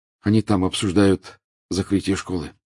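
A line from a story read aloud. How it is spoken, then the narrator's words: Plain. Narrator (Russian): сказал Гарри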